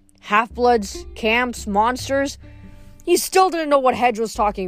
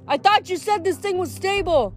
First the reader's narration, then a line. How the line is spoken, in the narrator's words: Jason shouted over the wind